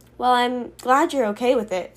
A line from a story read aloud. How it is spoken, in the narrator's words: sighed Miss Carrie